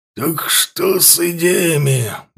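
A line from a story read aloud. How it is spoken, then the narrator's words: Hoarse, tossed over shoulder. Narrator (Russian): бросил Ворк через плечо хрипло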